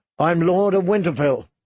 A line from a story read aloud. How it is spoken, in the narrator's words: he cried, as he had 100 times before